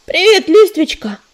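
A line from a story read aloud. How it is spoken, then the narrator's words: Cheerful shout. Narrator (Russian): весело крикнул он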